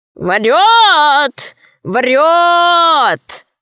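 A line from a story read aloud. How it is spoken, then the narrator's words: Bird shouting from above. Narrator (Russian): крикнула с неба птица Дурында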